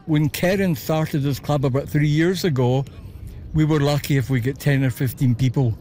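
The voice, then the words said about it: Scottish Glasgow accent. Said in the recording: “I couldn't help but notice your accent. ... Originally from Glasgow.”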